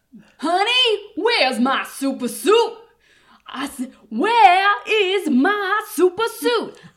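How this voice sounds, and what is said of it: Impression of Samuel L. Jackson's Frozone. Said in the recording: “Samuel L. Jackson, he's Frozone? ... Can you do his voice?”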